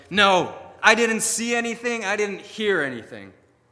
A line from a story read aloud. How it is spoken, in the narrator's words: at those last thunderous words, Lucifer shouting